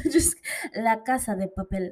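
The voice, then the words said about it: Poor put-on Spanish accent. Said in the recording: “I tried to do a Spanish accent. That was so bad. I'm so bad with accents.”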